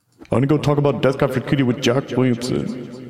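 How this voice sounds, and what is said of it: Exaggerated extremely low voice. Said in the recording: “My voice is extremely low like this.”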